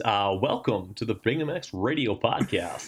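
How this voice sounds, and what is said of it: Radio announcer voice. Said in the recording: “went from bro on the phone and then radio announcer as soon as you started pushing record ... This is full radio voice.”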